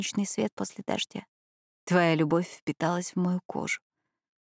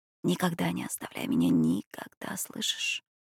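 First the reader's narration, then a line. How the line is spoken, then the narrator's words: Whispered in Italian. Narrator (Russian): шептал он ей уже на родном итальянском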